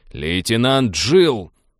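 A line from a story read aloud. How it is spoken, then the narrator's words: Barked over intercom. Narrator (Russian): рявкнул капитан в интерком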